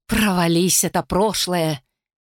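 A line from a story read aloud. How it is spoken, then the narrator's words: Quiet curse. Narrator (Russian): тихо выбранился он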